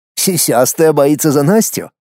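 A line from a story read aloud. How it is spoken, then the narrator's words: Smirking grunt. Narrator (Russian): хмыкнул я в ответ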